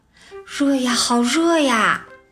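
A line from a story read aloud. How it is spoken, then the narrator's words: Mumbling to himself. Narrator (Chinese): 他还在喃喃自语地说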